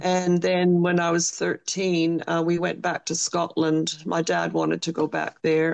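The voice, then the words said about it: Slight Scottish accent. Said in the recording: “I detect a little bit of an accent there, just a little bit. ... I think you may have some Scottish background.”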